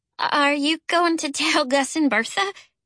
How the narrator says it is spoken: Charlie asked in a pitiful voice

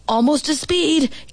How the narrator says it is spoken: Gibby's dad hollered

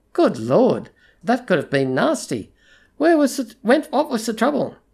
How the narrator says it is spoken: Years of role-play kept his voice lightly concerned as he said

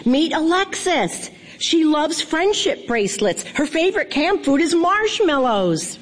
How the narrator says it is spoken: my mom shouted

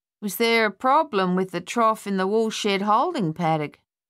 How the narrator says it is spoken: he asked in his usual drawl

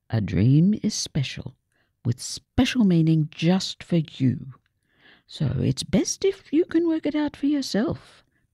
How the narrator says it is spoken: Gran said kindly

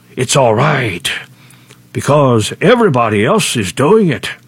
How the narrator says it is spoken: The devil hisses

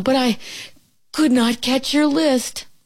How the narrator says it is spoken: gasped Frog

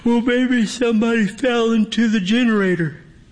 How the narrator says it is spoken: Eric stifles a yawn as he answers

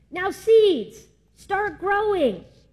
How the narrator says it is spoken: Toad put his head very close to the ground and shouted

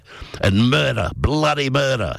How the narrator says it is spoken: yelled the man from Iron Bark

